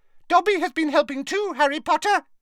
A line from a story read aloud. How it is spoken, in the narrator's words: he squeaked